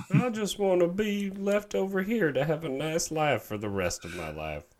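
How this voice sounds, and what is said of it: Usual voice. Nothing is said of it.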